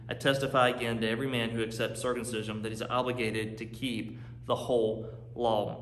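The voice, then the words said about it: North Carolina Southern accent. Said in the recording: “you guys know I'm from North Carolina. You hear my accent now”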